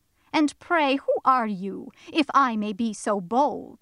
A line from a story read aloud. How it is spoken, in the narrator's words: said Tom